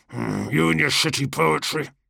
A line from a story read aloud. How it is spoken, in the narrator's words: Cargos grunted